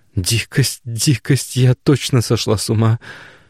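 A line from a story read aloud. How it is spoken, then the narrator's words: Inner groan. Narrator (Russian): Мысленно простонала Галя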